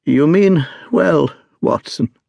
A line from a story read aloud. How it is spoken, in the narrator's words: said the sick man with something between a sob and a groan